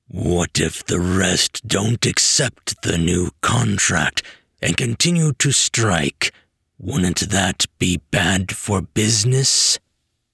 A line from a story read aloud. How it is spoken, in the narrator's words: Nerdboy grunted